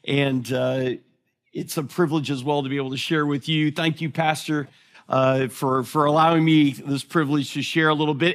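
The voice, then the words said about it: Thick American accent. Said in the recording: “my thick American accent”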